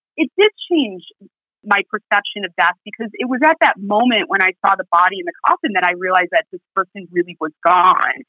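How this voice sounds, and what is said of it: American Midwest accent. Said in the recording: “I've held on to this Midwest accent”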